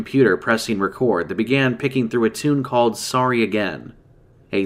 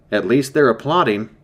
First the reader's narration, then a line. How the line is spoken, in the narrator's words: I said in a wobbly voice